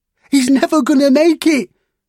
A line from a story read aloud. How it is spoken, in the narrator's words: yelled another